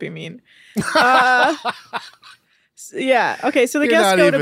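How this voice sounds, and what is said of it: Usual voice. Nothing is said of it.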